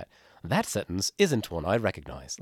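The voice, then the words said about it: Put-on British accent. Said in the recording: “I think I have to do it with a British accent, right? We would never say that.”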